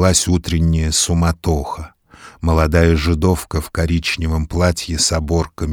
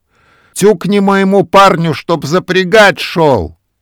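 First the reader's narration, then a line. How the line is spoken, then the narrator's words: Shouting from a window. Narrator (Russian): дюдя кричал из окошка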